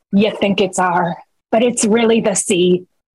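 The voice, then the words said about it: Slight pirate character voice. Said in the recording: “I like that you did the voice a little bit”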